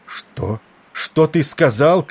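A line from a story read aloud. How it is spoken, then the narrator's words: Shouting. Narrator (Russian): крикнул Валери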